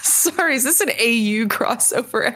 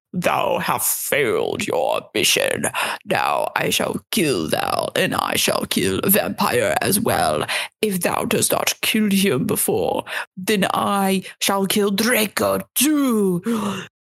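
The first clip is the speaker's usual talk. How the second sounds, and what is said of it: Evil raspy villain voice. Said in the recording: “said evilly in his raspy voice”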